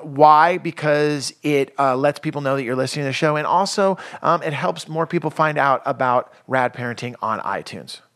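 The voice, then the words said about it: Announcer-style radio voice. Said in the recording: “that was my radio voice for the last 5 seconds”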